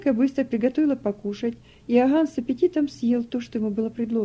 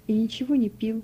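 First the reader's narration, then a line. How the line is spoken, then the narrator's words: Barely audible whisper. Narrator (Russian): едва слышно прошептал Иоганн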